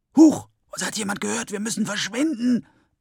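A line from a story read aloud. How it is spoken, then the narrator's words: Hissing reply. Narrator (German): entgegnet es ihm zischend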